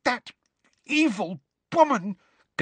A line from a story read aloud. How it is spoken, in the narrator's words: gasped Hermione, who seemed to be having difficulty talking due to rage